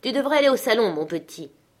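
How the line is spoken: Stern. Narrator (French): dit-il d'un ton sévère

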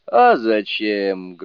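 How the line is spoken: Loud. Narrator (Russian): громко отвечал Суни-кун

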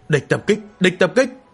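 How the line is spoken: Angry cry. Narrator (Vietnamese): ngửa đầu lên giận dữ kêu

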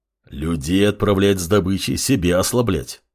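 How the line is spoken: Displeased grumbling wolf. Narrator (Russian): недовольно заворчал волк

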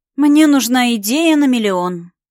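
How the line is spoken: Moaning, half despairing. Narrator (Russian): простонала то ли от приятного тепла, пробежавшего по рукам до самых кончиков пальцев, то ли от отчаяния

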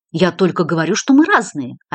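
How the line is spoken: Hurt reply. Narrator (Russian): обиженно ответил Патрик

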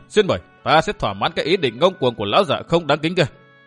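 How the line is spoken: Laughing loudly. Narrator (Vietnamese): Vu Tư Minh cười lớn nói

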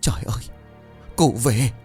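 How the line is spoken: Stammering. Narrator (Vietnamese): bà bá thì lắp bắp

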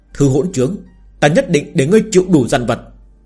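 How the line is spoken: Increasingly angry. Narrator (Vietnamese): Thương Khuynh Thành càng tức giận nói

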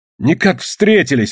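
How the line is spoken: Exclamation. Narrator (Russian): воскликнул Тимошка

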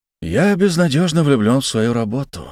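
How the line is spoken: Sigh. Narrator (Russian): вздохнул я

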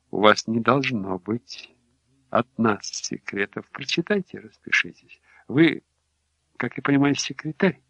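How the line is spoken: Soft speech. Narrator (Russian): мягко сказал

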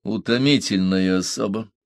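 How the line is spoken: Sigh. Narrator (Russian): вздохнул Беккер

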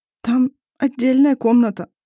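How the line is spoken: Resigned mumble. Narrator (Russian): промямлила Арай с обреченным видом

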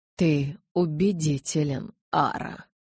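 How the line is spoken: Muffled low voice. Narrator (Russian): глухо произнес Карлайл

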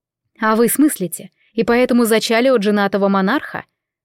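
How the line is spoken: Calm question. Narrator (Russian): все так же спокойно спросила я

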